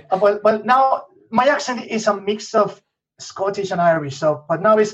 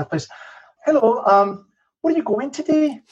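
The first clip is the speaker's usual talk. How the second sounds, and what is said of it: Melodic Northern Irish accent. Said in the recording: “in Northern Ireland ... the accent there, it's very melodic ... I'm going to do some, now it's all rusty”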